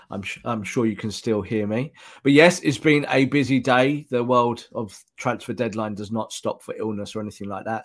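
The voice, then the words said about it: Slightly hoarse, ill-sounding voice. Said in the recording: “I have a good case of the COVIDs, so I apologize to the audience if my voice sounds a little bit hoarse... You're a little bit ill.”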